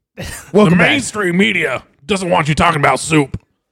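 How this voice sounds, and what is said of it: Strained Alex Jones impression. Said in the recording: “Are we all just going to be Alex Jones? ... Oh, it hurts to do that voice.”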